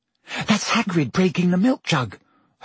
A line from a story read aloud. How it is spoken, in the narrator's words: Hermione whispered